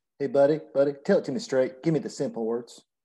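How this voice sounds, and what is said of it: Put-on Southern US accent. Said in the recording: “I'm using a Southern accent”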